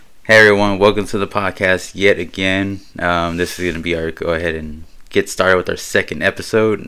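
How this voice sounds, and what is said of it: Raspy, slightly hoarse voice. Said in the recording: “Excuse my voice. I'm just feeling a little bit under the weather today, so I seem a little raspy.”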